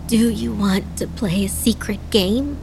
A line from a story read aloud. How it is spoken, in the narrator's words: Adana asked, her voice raspy